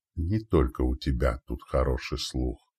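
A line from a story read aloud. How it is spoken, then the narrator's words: Whisper. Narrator (Russian): прошептал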